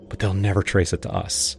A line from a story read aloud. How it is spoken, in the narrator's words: Laura whispered